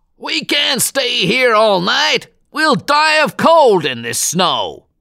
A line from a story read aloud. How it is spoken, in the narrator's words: shouted one of the passengers